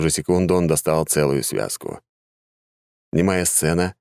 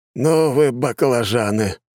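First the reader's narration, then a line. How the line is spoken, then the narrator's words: Sighing. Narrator (Russian): вздохнул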